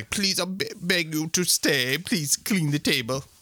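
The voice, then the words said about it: Put-on Turkish accent. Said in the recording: “Turkish accent”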